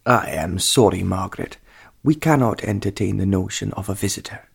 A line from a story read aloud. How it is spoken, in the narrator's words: said the Earl